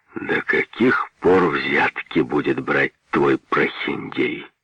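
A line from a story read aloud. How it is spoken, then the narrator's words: Menacing. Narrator (Russian): сказал грозно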